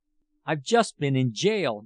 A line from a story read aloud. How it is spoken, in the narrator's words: Jurgis cried